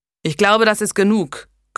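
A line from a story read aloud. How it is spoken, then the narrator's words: Growled. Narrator (German): knurrte er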